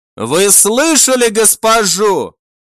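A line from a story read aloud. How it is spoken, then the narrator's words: Shout, changed tone. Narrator (Russian): Совсем другим тоном прокричал он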